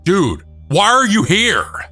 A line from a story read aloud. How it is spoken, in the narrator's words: I just kept screaming